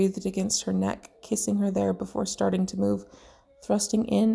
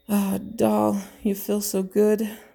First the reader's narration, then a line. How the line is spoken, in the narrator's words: Bucky moaned